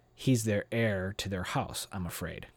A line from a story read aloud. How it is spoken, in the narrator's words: Gwen said